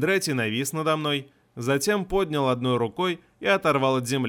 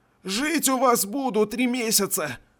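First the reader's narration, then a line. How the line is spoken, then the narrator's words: Hoarse choked rasp. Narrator (Russian): Прохрипел я сквозь сдавленное горло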